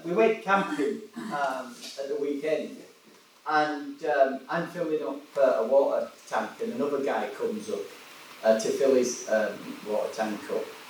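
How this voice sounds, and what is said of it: West Yorkshire English accent. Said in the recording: “that's not a Welsh accent, is it? And I said, oh, no, mate, I'm from West Yorkshire, originally.”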